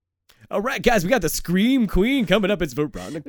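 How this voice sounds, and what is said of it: Strip club DJ announcer voice. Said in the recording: “just doing, like, the, like, strip club DJ. ... You just gotta put on that voice.”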